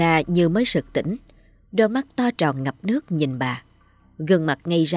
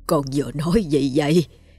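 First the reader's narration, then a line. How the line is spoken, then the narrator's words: Hoarse old woman. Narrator (Vietnamese): giọng bà khàn khàn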